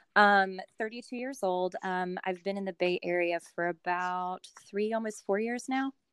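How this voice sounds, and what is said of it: Slight Southern US accent. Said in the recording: “originally from North Carolina. You'll probably pick up on the Southern accent a little bit”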